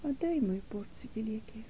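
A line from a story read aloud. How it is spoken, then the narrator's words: Barely audible quiet voice. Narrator (Russian): ответила Нета едва слышным тихим голосом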